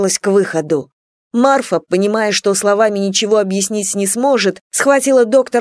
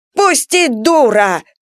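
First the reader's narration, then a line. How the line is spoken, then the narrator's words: Shouting. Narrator (Russian): кричал Василий Кузьмич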